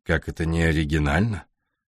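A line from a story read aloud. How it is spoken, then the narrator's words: Cold reply. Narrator (Russian): холодно ответил Дэвид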